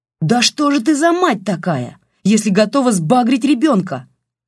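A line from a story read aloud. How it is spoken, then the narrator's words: Yelling. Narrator (Russian): завопил Олег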